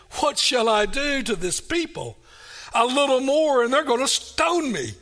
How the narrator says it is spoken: So Moses cried out to the Lord, saying

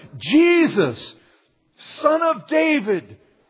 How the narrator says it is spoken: He cried out to Him

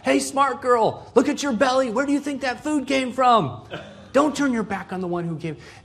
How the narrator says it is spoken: The Yembes that are more sarcastic, they're yelling from the side

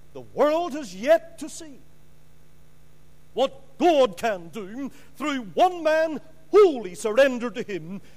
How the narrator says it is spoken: Moody cried out

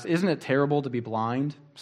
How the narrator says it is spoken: someone asked her

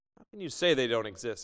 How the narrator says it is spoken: asked the barber

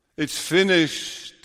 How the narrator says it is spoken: he says, triumphantly as victor

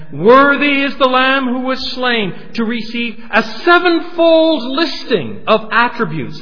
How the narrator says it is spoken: In a loud voice they sang

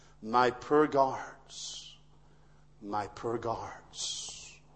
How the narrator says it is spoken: William, the king, seen the ferocity of that attack, he murmured

